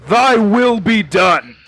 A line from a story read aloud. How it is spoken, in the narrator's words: just shouts